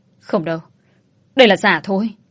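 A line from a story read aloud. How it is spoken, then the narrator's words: Stubborn shout. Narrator (Vietnamese): ông Đông vẫn ngoan cố rồi quát lên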